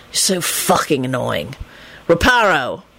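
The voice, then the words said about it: Exasperated character voice. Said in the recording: “he said in an exasperated voice.”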